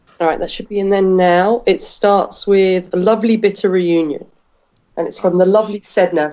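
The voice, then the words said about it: Strained, failing voice. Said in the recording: “I cannot speak anymore ... My voice is really going.”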